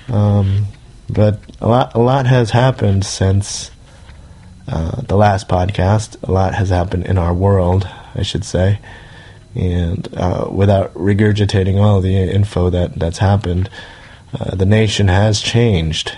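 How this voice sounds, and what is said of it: Froggy, hoarse voice. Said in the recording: “I don't know if you guys can tell in my voice, I'm still kind of froggy”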